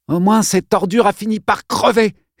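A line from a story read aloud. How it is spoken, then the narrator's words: Exclaiming. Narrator (French): s'écria-t-elle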